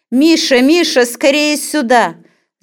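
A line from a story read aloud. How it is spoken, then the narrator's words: Shouting from another room. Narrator (Russian): закричала она из комнаты сына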